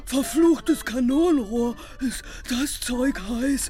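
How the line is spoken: Gasping, sputtering tea. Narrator (German): keuchte Topsy Pete, wobei er den Tee in hohem Bogen über den Tisch prustete

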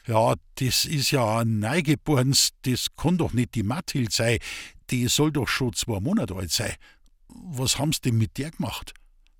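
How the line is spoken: Stammered. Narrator (German): stotterte

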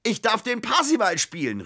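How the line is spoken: Calling out. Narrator (German): rief er, als er in die Wohnung stürmte

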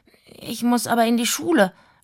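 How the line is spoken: Stuttering. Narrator (German): stotterte

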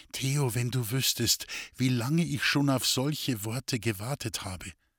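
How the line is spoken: Whispered. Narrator (German): flüsterte

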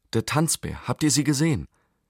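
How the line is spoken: Excited boy calling. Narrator (German): rief der Junge aufgeregt

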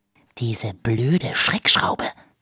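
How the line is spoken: Hissed. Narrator (German): zischte Iris

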